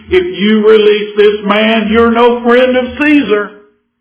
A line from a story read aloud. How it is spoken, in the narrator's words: the Jews cried out saying